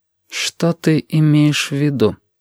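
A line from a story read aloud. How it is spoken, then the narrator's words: Very cold, very quiet question. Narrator (Russian): спросила очень холодно и очень тихо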